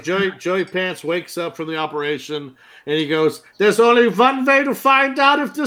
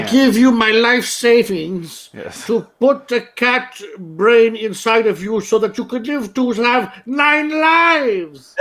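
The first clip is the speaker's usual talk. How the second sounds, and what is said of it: Exaggerated joke accent. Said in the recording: “your shitty joke accent right now is more convincing than that guy's accent in this episode”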